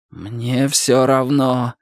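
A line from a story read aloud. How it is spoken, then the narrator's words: Groan. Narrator (Russian): простонал Дик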